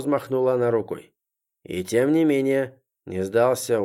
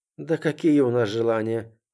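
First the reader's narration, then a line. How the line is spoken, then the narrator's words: Sighing. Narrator (Russian): вздохнула Варька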